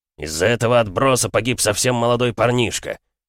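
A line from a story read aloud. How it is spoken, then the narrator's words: Loud bark. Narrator (Russian): рявкнул он так, чтобы все слышали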